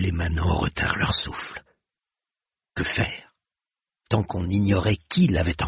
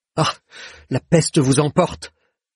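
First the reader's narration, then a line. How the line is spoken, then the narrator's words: Man on ground exclaiming. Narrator (French): s'écria l'homme à terre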